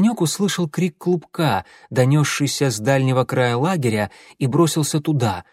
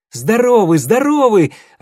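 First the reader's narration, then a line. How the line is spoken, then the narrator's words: Joyful reply. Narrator (Russian): радостно ответил Клубок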